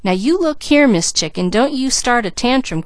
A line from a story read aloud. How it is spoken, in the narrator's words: cried Mickey